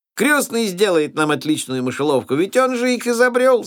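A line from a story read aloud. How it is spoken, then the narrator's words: Shouting. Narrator (Russian): закричал Фриц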